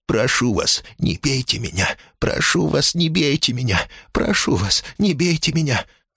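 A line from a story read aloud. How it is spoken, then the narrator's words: Whispered wailing plea. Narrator (Russian): Запричитал он шепотом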